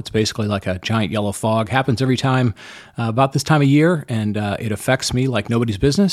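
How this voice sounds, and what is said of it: Slightly hoarse voice. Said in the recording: “my voice sounds a little bit hoarse,”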